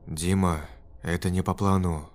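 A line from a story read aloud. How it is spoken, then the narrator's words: Trembling voice. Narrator (Russian): дрожащим голосом ответил Олег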